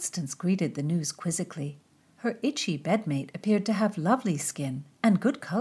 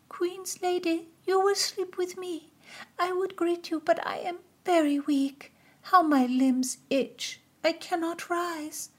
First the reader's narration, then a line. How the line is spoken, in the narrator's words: A girl whimpered